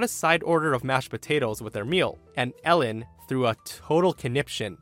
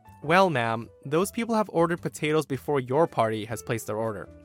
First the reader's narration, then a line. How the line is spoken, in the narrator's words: The waiter kindly but concisely explained